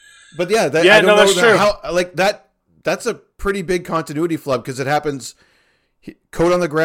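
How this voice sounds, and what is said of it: Usual voice. Nothing is said of it.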